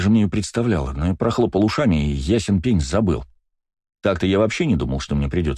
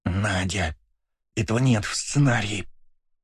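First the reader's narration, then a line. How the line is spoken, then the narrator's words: Hiss. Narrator (Russian): снова зашипела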